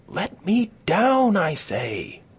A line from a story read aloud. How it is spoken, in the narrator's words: screamed Katie